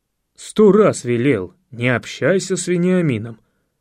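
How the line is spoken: Barking father. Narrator (Russian): рявкнул отец

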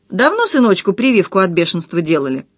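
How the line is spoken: Snide question. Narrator (Russian): продавщица ехидно осведомилась

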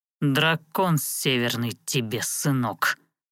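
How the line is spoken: Attacker's growl. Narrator (Russian): рыкнул один из нападавших

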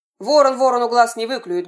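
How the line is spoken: Rude, cutting interruption. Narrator (Russian): грубо оборвал ее муж роженицы

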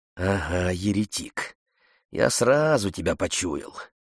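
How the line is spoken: Grumbling. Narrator (Russian): пробурчал хозяин

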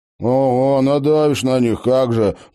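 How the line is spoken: Grumbled. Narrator (Russian): проворчал Тед

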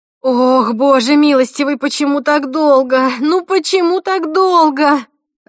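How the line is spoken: Sobbing woman. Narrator (Russian): рыдала женщина

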